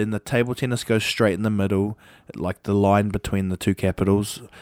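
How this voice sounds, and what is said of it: Usual voice. Nothing is said of it.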